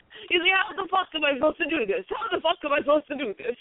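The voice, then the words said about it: Imitates another person's voice. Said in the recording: “you do a perfect Damiano impression. That was pretty good.”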